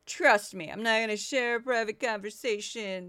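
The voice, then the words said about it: Imitates another person's voice. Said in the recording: “my not very good impression”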